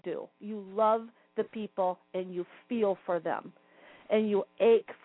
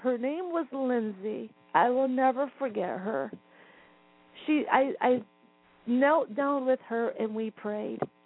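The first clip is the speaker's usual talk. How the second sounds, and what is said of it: Emotional, moved speaking voice. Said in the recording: “I'm going to get emotional here.”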